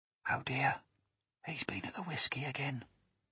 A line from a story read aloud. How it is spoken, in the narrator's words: whispered the second officer